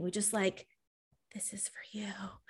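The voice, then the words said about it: Creepy voice. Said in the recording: “That was kind of creepy voice”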